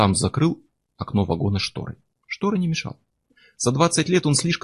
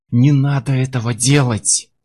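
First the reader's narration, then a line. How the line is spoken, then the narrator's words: Hiss. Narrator (Russian): прошипел кондуктор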